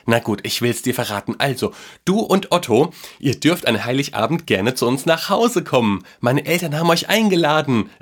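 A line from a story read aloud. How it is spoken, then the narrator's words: Boy telling excitedly. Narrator (German): erzählte der Junge aufgeregt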